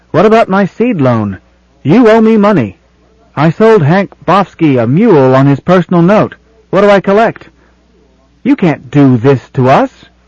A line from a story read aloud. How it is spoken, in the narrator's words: shouts of